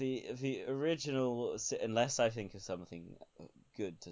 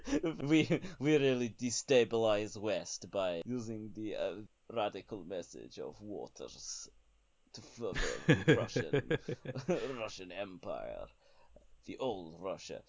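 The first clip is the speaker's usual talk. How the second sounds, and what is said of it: Put-on Russian accent. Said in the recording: “I'm going to stop doing a Russian accent now ... in the Russian accent”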